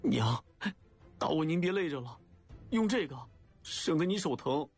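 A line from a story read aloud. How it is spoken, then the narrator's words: Upset, trembling voice. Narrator (Chinese): 心里难过，一时冲动 颤声说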